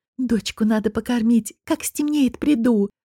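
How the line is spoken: Fervent whisper. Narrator (Russian): жарко шепнула Конча

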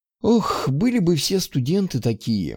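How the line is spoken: Sighing. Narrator (Russian): вздохнула

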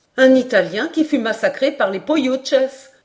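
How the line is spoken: Exclaiming. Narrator (French): s'écria Paganel

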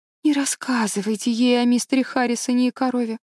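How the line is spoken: Pleading. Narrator (Russian): взмолилась Энн

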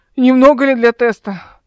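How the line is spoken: Hoarse woman. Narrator (Russian): Она хрипло произнесла

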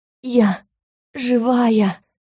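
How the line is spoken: Hoarse wheezing. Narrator (Russian): Снова просипела

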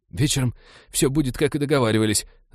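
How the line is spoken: Frightened whine. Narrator (Russian): затравленно проскулил тип

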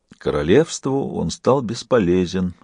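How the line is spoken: Sad, smiling reply. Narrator (Russian): ответил Бог, печально улыбаясь

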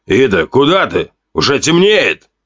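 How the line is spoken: Shouting while hurrying. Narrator (Russian): крикнул Вака, спеша за ней

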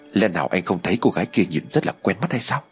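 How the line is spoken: Quiet question. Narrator (Vietnamese): đại thúc nhỏ giọng hỏi tôi

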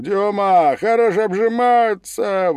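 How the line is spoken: Cheerful group shout. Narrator (Russian): другие казаки и, весело крикнув

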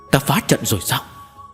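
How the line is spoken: Frightened cry. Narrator (Vietnamese): tiếng kêu sợ hãi của Linh Dục Tú cùng với Bàn Công Thố

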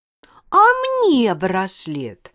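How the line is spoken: Indignant exclamation. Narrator (Russian): возмущенно воскликнула Танечка

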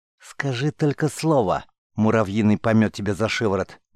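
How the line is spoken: Indignant hiss. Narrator (Russian): негодующе зашипела Цера

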